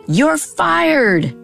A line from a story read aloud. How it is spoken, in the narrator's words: her shout reverberated around the checkerboard room